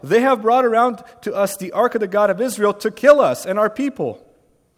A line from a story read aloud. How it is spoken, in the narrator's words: the people of Ekron cried out